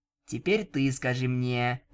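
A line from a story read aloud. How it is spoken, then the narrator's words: Grumbling. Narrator (Russian): проворчала она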